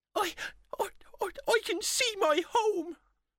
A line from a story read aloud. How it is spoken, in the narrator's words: cried the elf